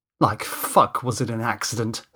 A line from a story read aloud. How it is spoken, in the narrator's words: spat Danny